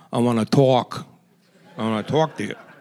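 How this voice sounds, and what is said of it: East Coast accent. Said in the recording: “He uses a East Coast accent.”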